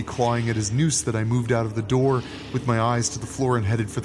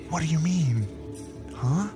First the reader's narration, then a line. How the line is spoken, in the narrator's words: I whispered back